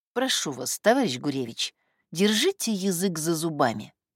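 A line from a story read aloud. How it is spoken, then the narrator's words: Soft. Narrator (Russian): сказала она мягко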